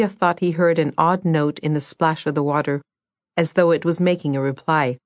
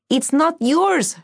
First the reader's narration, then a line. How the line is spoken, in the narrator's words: she shouted